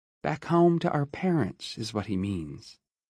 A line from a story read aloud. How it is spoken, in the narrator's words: Iris said quietly